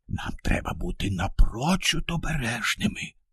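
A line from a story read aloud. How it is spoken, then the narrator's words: Whispered. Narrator (Ukrainian): Прошепотів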